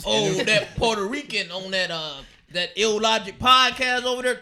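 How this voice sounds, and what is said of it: Imitates another person's voice. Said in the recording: “your Donald Trump impression sounds like uh, the Colonel from KFC ... all my racist white men, they all talk like that”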